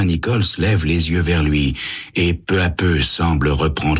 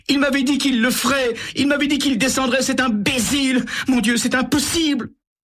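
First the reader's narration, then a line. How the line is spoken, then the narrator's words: Bursting into sobs. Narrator (French): Elle éclate en sanglots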